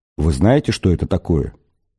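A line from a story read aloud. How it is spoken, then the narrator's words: Low-voiced question. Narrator (Russian): вполголоса спросил медведь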